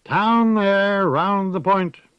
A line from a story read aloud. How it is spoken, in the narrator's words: A sailor boy up in the dizzy, swaying world of the masts and sails and rigging overhead called out clear and sweet